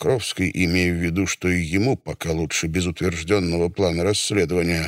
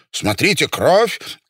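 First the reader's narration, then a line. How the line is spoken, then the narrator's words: Shout. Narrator (Russian): крикнул Фридман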